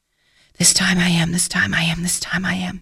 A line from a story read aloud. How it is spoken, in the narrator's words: she whispered to herself